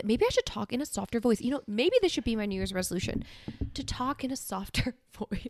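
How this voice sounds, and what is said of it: Congested voice with sore throat. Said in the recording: “I still sound a little bit, you know, congested ... I have a sore throat”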